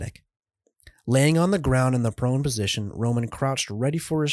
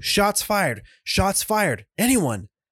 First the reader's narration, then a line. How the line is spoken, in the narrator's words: He screamed into his radio